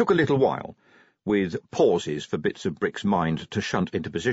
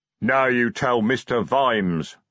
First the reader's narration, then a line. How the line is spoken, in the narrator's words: growled Detritus